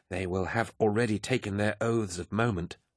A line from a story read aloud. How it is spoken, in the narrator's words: Emont was saying to the group in a hushed whisper